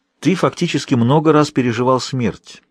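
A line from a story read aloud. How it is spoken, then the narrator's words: Plain. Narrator (Russian): сказал он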